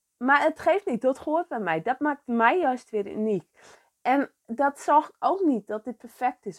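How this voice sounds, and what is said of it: Frisian accent in Dutch. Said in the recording (Dutch): “En jij hoort dat ik uit Friesland kom. Ik heb dat Friese accent. ... ik spreek geen perfect Nederlands”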